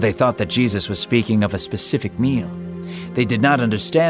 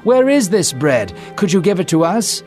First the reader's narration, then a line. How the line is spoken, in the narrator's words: They pleaded with Jesus, saying